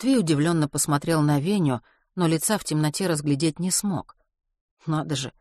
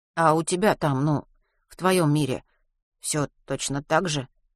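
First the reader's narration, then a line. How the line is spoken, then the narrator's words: Quiet question. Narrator (Russian): тихо спросил Веня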